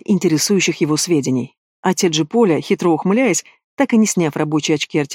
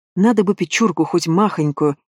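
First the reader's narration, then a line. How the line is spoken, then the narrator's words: Sighing. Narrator (Russian): вздохнула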